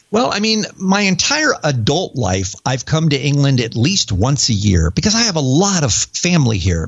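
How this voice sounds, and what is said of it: American accent. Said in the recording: “you have an American accent.”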